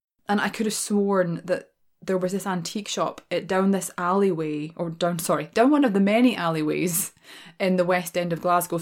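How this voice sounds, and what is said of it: Glaswegian Scottish accent. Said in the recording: “I am a born and raised Glaswegian, right? That's my accent.”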